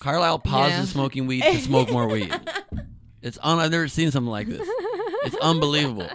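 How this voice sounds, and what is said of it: Usual voice. Nothing is said of it.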